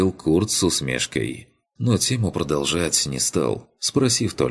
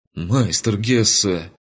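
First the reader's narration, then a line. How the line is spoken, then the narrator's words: Frightened mumbling. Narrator (Russian): Так испуганно забормотал трактирщик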